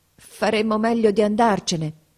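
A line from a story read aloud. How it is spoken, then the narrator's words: Stammering. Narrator (Italian): balbettò Mason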